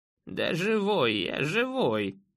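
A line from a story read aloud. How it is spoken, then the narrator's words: Creaky old voice, chuckle. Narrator (Russian): проскрипел старик и коротко хохотнул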